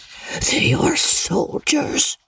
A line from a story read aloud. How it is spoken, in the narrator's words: added in an awed whisper